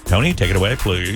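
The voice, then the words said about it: Radio DJ announcer voice. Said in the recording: “This is my official DJ voice now”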